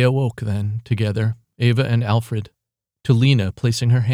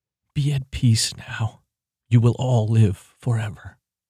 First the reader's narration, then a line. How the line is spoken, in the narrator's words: Alfred whispered